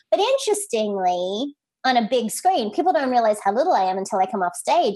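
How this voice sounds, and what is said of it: Accented, childlike-sounding voice. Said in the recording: “I will make fun of my accent and the fact that I sound like I'm 5”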